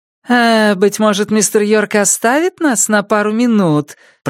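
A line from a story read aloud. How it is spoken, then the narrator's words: Sugary sing-song voice. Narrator (Russian): пропела она слащавым голосом, резко контрастировавшим с серьезной миной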